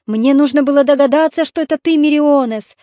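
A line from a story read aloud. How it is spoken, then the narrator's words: Joyful reply. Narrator (Russian): радостно ответил царь Итаки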